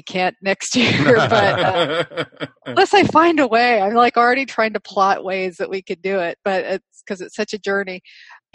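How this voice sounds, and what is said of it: North American accent. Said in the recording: “as you can probably tell from my accent, North American originally”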